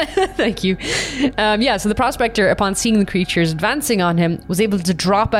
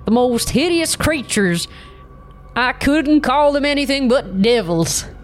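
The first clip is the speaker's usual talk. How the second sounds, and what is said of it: Old prospector character voice. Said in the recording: “put on my best prospector voice ... That was actually really good.”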